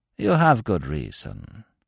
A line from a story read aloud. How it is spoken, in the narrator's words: he continued, calmly